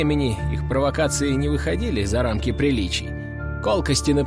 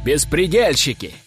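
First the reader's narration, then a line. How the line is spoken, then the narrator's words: Shouting. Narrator (Russian): кричали нанятые ими газетчики и блогеры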